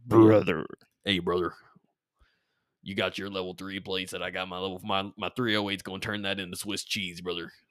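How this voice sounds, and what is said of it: Exaggerated 'brother' character voice. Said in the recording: “give me your best brother voice.”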